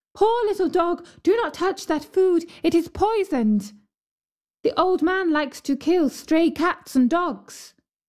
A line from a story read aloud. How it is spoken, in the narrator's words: the girl cried